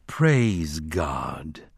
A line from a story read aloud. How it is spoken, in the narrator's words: the congregation drained, spoke it solemnly